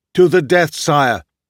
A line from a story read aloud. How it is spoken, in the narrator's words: cried Tremeau